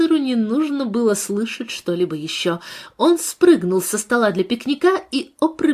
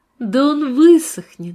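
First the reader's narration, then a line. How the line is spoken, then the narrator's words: Laughing. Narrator (Russian): засмеялась Бренда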